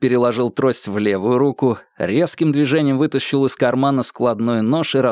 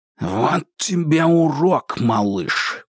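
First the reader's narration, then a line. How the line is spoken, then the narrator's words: Hiss. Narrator (Russian): прошипел Кинг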